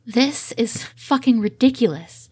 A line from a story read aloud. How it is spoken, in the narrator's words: Steed gasps out between desperate kisses